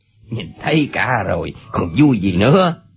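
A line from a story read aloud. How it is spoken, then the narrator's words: Angry. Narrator (Vietnamese): Chu Bá Thông tức giận nói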